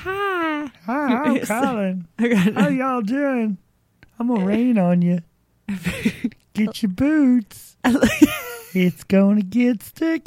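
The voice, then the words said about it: Impression of Cleveland Show's son. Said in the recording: “You sound like the guy on Cleveland Show. A little fat son. ... you do a really good impression of him.”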